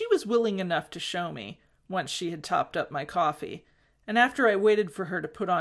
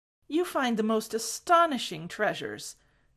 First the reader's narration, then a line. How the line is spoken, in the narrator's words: told earnestly